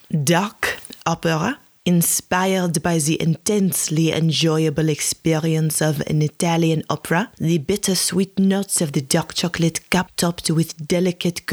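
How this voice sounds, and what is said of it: Exaggerated mock French accent. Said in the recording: “I read the descriptions out loud in a French accent, or at least my interpretation of what a French accent sounds like to me”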